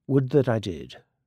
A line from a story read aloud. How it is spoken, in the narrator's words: she murmured, also hotly